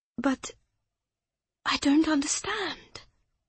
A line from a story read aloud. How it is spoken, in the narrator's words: Clara whispered